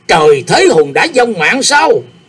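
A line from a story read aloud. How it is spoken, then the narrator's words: Shriek. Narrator (Vietnamese): Tri Phong Liệt Kiếm thét lên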